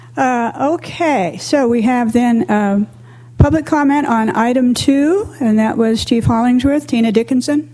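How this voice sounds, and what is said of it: Voice audibly affected, rough. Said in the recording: “You can tell from my voice that I am truly responding to the smoke ... I don't know if anybody else sounds about like I do right now”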